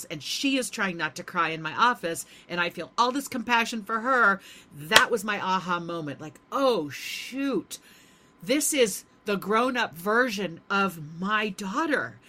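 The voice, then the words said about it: Emotional, slightly choked-up voice. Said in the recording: “hear in my voice right now, just on a podcast, I'm getting a little emotional.”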